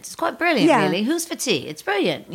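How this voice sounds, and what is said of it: Good put-on English accent. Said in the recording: “You can do a good accent.”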